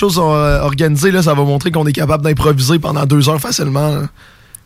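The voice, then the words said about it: Hoarse, strained voice. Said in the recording (French): “ma voix est détruite à cause que j'ai vu un spectacle hier”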